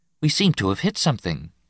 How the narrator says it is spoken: Nessus said calmly

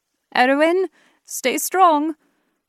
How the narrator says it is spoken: I called out

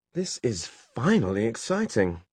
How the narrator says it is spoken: she exclaimed

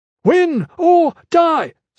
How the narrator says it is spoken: Strap shouted

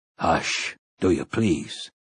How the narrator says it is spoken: Roland murmured

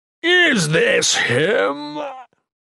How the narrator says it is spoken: Mikik mocked

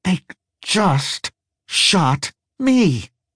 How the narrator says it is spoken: whispered through clenched teeth

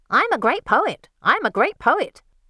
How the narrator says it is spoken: Cassandra screeches out

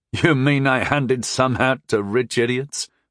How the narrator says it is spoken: I chuckled mirthlessly

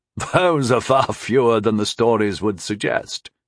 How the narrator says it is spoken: chuckled Kay

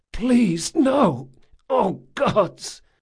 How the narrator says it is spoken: Jean moaned, sobbing

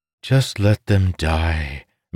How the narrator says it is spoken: Mistress Rudal sighed

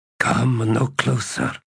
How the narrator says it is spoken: croaked Runthervian, his voice almost unrecognizable, and Tanakalian now heard the old man's desperate wheezing of breath

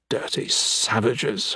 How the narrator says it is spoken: under his breath

